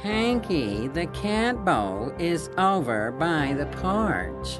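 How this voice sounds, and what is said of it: Whiny voice. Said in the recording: “whiny voice”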